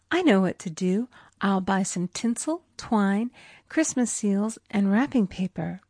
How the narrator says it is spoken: She exclaimed

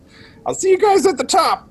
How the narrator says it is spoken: he's going to yell to his friends

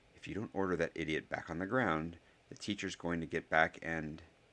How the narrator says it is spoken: Harry said in a low tone

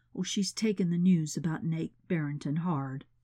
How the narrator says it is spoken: her father murmured

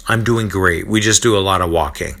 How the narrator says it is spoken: Barnabas exclaims

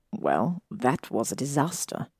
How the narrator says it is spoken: Draco mumbled

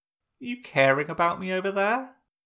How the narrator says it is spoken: Azula scoffed

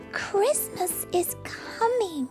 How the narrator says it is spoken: Gauzy whispers

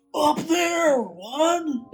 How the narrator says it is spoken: Will yelled

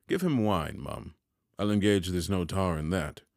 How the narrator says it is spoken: Pumblechook said sharply

